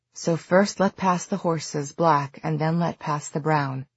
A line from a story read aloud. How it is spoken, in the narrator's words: Jules murmured, quoting an old fairy poem